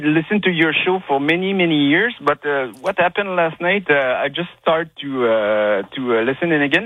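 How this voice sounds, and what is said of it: French Quebec accent. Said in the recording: “I apologize for my French accent. I'm from Quebec.”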